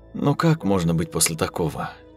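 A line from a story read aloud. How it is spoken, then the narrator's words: Sad remark. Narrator (Russian): грустно заметила Роза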